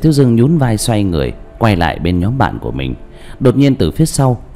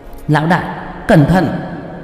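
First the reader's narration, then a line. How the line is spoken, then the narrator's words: Loud shout. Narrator (Vietnamese): Qua Qua lớn tiếng kêu lên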